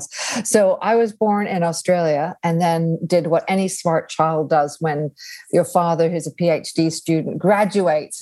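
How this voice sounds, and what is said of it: Noticeable foreign accent. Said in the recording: “people often hear my accent and that usually get like, going. wait a second, where's that accent from?”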